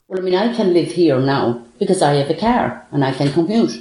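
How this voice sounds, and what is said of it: Irish accent. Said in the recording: “guess that accent ... where on the planet the speaker grew up ... If you guessed Ireland, well done”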